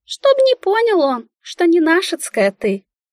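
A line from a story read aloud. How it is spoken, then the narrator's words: Businesslike squeak. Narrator (Russian): Деловитым тоном пискнула Мика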